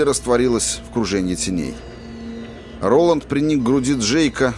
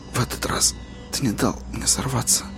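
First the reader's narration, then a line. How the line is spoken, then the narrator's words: Barely audible whisper. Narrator (Russian): сказал он чуть слышным шепотом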